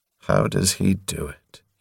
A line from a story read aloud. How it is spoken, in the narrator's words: He murmured pointlessly to himself